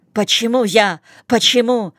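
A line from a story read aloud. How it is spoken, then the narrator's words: Squealing. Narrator (Russian): взвизгивает Дяков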